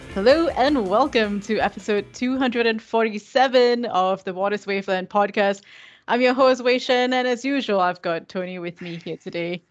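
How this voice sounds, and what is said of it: Polished talk show host delivery. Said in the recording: “I sound like a talk show host today, right?”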